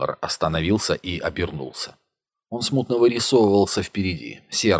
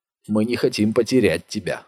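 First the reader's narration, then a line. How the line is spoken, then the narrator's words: Plain. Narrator (Russian): сказал Гуннар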